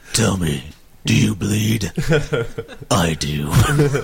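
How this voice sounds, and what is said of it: Gravelly, hoarse Batman-like voice. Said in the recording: “my voice might stop. I almost sound like Batman.”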